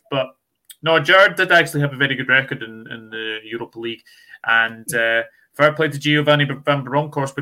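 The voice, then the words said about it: Scottish accent. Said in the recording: “we can tell from your accent that you're not Welsh. Which is your Scottish team?”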